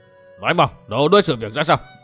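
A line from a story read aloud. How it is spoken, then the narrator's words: Barked question. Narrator (Vietnamese): Tắt tiếng cười một cách đột ngột, Thôi Bách Linh ... hỏi như quát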